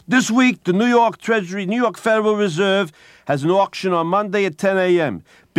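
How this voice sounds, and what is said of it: Imitated strong New York accent. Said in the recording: “a man with the most remarkable New York accent you'll ever want to hear”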